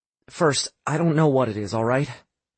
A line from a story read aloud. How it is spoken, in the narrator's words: Sam said quietly